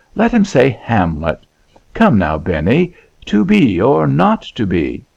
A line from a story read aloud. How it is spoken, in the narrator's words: exclaimed Christopher